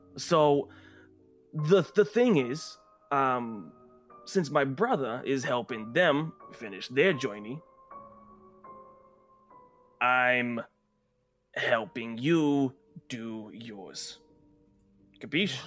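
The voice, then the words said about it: Speaks in a put-on accent. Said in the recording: “Just hold off on the accent. I'm not really digging it.”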